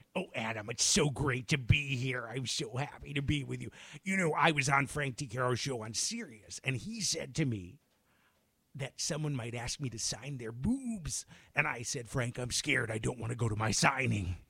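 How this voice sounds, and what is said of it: Imitates another person's voice. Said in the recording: “your best Carol Channing impression ... a little bit like Carol Channing meets Harvey Fierstein”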